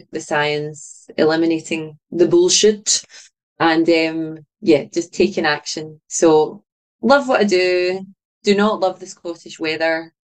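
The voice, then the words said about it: Scottish accent. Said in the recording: “I love that you're from Scotland ... I also just love listening to you talk. Your beautiful accent.”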